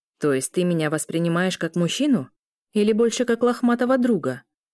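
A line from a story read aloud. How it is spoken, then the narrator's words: Plain. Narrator (Russian): спросил Ар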